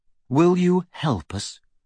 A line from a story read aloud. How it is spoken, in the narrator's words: said Harry